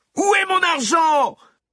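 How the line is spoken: Screamed. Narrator (French): hurla-t-elle

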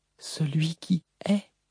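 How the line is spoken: Whispered. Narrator (French): chuchota-t-elle

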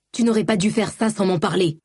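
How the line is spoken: Exclaiming. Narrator (French): s'exclamait Balad

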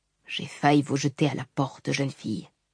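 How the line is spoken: Quiet. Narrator (French): déclara tout bas Sebarial

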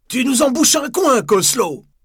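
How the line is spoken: He exclaimed. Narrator (French): s'écria-t-il

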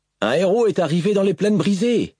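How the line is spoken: Soldier shouting a reply. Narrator (French): cria le soldat en réponse

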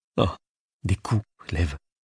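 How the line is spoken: Murmured. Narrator (French): murmura Anastasia

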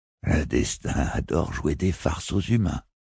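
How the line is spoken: Mocking ghostly murmur. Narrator (French): murmurait le spectre moqueur de Paatskin

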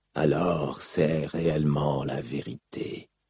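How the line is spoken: Murmuring. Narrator (French): murmura Seth

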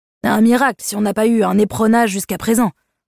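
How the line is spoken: Grumbled. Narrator (French): bougonna-t-il

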